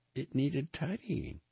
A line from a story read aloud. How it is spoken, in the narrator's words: Pippa said weakly